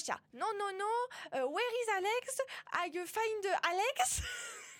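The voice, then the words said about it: Very bad accent speaking English. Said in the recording (French): “Avec cet accent, vraiment, c'est catastrophique.”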